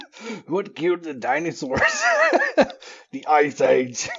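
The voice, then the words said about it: Imitates another person's voice. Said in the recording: “My terrible Arnold impression.”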